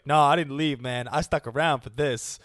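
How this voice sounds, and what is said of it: Imitates another person's voice, poorly. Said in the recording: “that was like bad impression”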